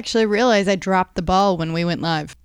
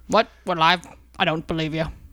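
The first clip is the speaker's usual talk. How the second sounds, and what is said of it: Imitates a movie character's voice. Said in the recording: “my awesome Anchorman impression”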